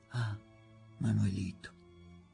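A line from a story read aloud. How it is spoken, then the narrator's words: Soft speech. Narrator (Italian): mi fece un piccolo sorriso sdentato, fra di familiarità e di pudore, dicendo piano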